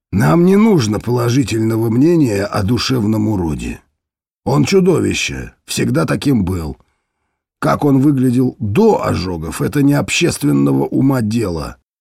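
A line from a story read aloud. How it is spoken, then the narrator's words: Calm explanation. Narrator (Russian): спокойно объяснял Дитер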